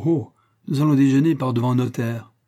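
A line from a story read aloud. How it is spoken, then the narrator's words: Cried out. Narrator (French): s'écria de Curcy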